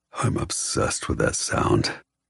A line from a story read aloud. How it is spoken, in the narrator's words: he says, his voice darker